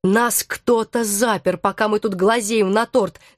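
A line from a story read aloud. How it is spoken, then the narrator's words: Growling. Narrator (Russian): зарычал Алекс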